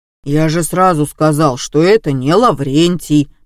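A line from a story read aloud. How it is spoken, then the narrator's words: Booming drone. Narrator (Russian): прогудел Вован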